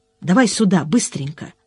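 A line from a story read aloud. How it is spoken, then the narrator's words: Whispered. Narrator (Russian): шепнул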